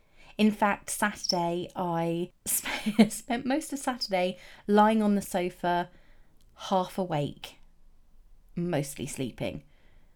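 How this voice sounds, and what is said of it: Congested voice with sniffing. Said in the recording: “I'm a little bit run down. I've got a bit of a cold. You might have been able to hear me sniffing.”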